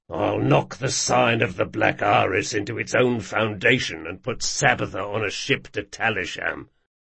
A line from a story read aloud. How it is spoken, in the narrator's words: he muttered to Jean